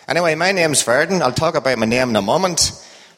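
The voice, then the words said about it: Northern Irish accent. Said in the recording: “Hope you can understand my accent. ... we're from the same neck of the woods. ... in Northern Ireland.”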